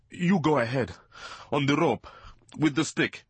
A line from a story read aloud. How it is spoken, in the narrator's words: he gasped